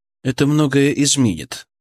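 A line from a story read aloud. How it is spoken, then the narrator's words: Cold reply. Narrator (Russian): ответил я холодно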